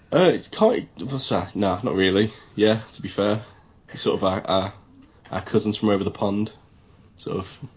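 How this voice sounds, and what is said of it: English accent. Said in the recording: “lives in England ... you can't tell by the accent”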